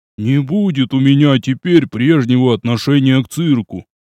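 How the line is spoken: Grumbling. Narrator (Russian): проворчал Румжмых

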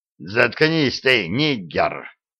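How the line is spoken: Vicious growl. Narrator (Russian): злобно прорычал Ролло

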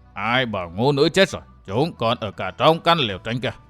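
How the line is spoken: Cold question. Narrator (Vietnamese): Tăng Mộc Tôn Giả lạnh lùng hỏi

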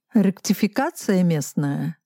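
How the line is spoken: Plain. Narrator (Russian): спросил Мышецкий

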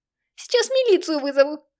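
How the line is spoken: Shrieking mother. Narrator (Russian): Завизжала мать

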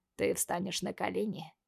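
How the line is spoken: Voice turning hoarse. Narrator (Russian): Голос Марата становится хриплым

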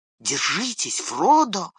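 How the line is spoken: Whisper in ear. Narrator (Russian): прошептал Сэм на ухо другу

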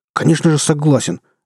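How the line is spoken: Barked. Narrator (Russian): рявкнул

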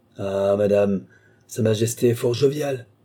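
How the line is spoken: Plain. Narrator (French): dit Richelieu

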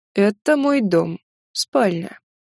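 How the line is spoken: Slow. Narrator (Russian): медленно произнес красавчик

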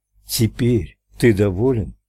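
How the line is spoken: Soft repeated question. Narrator (Russian): Ральф мягко повторил свой вопрос

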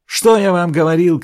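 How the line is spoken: Shouting. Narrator (Russian): кричал Селенг

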